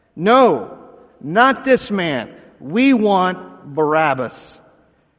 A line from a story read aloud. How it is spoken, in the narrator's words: they shouted back